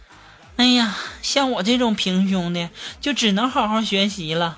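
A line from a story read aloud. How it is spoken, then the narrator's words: Sighing, to herself. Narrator (Chinese): 我同桌的妹子，叹了一口气儿，就自己在那说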